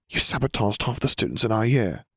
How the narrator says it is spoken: Hermione murmured

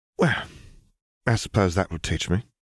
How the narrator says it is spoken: she muttered, wincing

